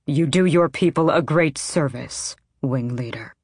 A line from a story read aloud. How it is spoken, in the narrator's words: the king said, his voice like granite